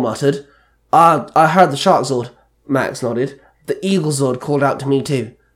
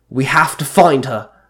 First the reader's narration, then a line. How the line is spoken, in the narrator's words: Merrick snapped